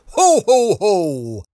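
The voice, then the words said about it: Jolly Santa Claus voice. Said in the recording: “That was my Santa impression.”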